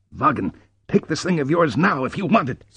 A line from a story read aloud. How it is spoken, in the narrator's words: snapped Ritter